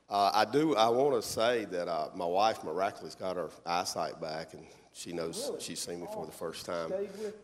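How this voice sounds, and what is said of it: Hoarse, cracky voice. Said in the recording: “I got a little chest thing going on this morning, so bear with me here. My voice is kind of cracky.”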